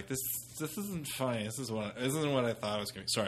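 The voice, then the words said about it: Drunk girl voice. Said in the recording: “drunk girl voice”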